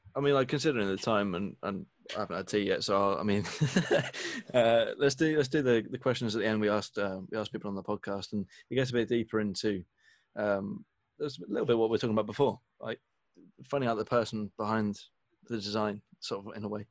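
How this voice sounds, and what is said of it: Croaky, hoarse voice. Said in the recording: “My voice has been really croaky ... my throat, honestly, I just haven't been able to breathe.”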